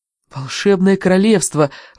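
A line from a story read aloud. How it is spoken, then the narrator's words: Breathed out. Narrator (Russian): выдохнул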